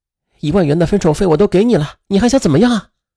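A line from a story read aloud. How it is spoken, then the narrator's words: Sly sinister laugh. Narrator (Chinese): 葛东升则奸笑道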